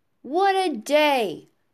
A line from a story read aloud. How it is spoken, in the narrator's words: cried Mr